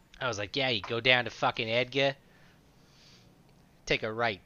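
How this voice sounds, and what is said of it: Exaggerated Boston-style accent. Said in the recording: “that Seattle Boston accent ... that stupid accent”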